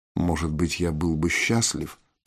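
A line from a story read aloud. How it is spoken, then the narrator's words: Whisper. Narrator (Russian): прошептал Виктор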